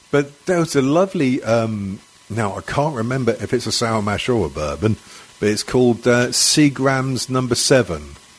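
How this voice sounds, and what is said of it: English accent. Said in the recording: “oh English, and I love your accent.”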